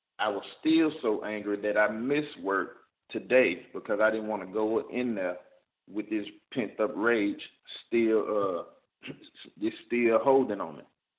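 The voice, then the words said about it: Frustrated, angry-sounding voice. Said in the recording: “you probably can hear the frustration in my voice”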